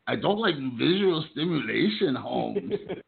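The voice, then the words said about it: Mock Mexican accent impression. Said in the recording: “your impression of a Mexican who's got his eyes closed for his entire life”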